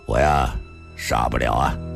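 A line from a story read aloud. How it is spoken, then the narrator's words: Sigh and bitter laugh. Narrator (Chinese): 李寻欢又叹了口气，苦笑了一声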